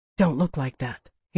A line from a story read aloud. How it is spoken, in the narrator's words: he whispered